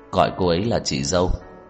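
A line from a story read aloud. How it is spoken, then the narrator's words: Calm, cold voice. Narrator (Vietnamese): giọng nói thản nhiên lạnh lùng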